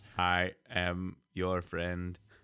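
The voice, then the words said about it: Concerning robot voice. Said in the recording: “You changed it up effectively to be a robot... you said it in a way that's a little concerning, though. Like that robot voice”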